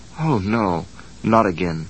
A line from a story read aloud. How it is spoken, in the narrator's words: Barney faintly recalled saying to Betty